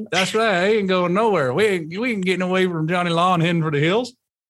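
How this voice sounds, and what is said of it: Put-on country accent. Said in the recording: “You're not my country accent friend.”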